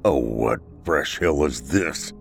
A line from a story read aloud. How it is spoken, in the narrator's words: O'Neill muttered